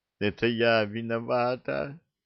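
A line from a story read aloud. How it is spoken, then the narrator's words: Sobbing, sudden. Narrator (Russian): Всхлипывая, сказала вдруг девушка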